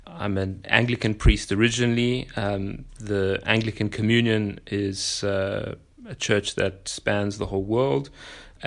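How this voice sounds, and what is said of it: South African accent. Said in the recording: “People may have heard a bit of an accent. ... It's a South African accent.”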